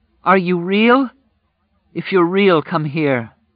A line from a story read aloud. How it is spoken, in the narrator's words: she cried